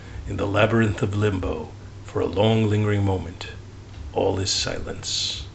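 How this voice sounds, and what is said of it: Dramatic storyteller narrator voice. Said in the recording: “That's my narrator voice.”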